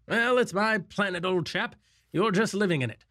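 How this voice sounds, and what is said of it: Erudite upper-class accent. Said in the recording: “such an erudite kind of upper class accent”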